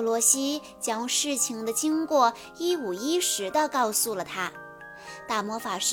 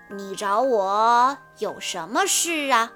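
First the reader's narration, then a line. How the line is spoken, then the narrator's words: Slow question. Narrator (Chinese): 慢慢的问道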